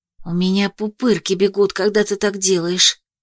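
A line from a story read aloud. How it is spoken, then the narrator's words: Shivering whisper. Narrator (Russian): шепнула, ежась от моей магии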